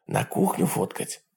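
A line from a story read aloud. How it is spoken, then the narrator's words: Whispering. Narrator (Russian): прошептал Джек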